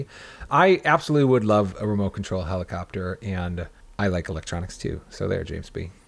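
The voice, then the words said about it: Slightly hoarse voice. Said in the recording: “A little hoarse.”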